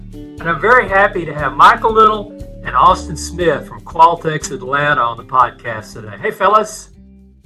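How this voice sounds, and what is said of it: East Texas twang. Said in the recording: “the East Texas Twang”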